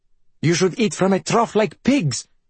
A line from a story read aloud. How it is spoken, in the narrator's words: Valeria spat from the kitchen